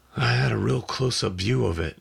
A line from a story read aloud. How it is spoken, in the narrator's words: I said weakly